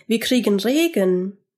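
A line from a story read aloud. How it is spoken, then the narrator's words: Calling out. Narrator (German): rief Georg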